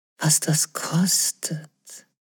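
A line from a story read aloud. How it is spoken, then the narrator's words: Whisper from behind. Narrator (German): flüsterte es hinter ihr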